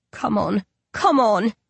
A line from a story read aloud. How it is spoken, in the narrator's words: he mutters